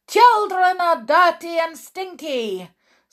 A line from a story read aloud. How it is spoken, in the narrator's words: screamed the Grand High Witch